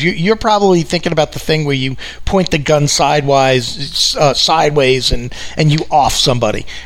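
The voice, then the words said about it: New York accent. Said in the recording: “this New York accent”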